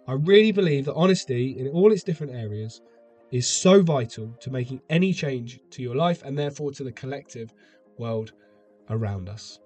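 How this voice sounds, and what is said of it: Unwell-sounding voice. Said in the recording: “I've not been well, as you can probably still tell by my voice.”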